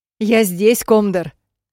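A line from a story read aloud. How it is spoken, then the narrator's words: Hysterical shout. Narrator (Russian): прикрикнула я истерически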